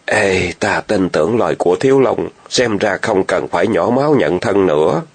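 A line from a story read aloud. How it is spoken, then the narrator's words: Sighing. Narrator (Vietnamese): Y thở dài rồi tiếp tục nói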